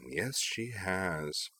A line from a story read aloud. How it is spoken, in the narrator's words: Shizuru purred